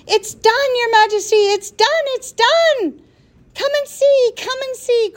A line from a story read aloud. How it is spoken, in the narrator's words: cried the little flukes